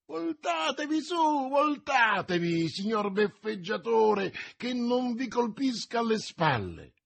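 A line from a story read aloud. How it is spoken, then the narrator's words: Shrieking. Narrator (Italian): strillando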